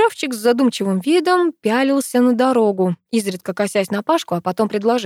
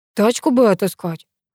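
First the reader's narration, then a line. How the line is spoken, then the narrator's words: Sighing. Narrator (Russian): вздохнул Паша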